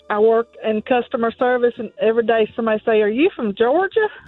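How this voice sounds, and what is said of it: Sweet Southern Georgia accent. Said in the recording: “I love the Loganville accent ... that southern, that sweet southern accent ... that's just like honey in my ears ... You've been complimented on your accent before ... the Georgia accent”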